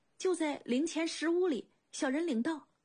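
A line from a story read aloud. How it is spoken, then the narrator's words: Hurried underling. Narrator (Chinese): 小头目急忙道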